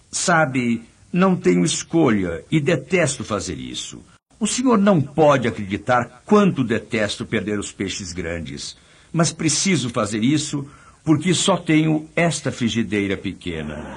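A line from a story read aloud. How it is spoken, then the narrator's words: Sad fisherman speaking. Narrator (Portuguese): O pescador tristemente disse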